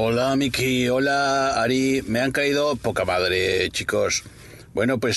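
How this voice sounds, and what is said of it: Usual voice. Nothing is said of it.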